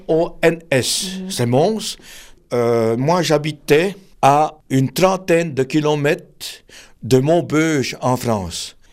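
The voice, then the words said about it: Belgian French accent. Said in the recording (French): “quand je cause comme avec vous, l'accent il est toujours là ... tu viens d'Alsace ... je suis belge ... j'ai perdu une partie de mon accent”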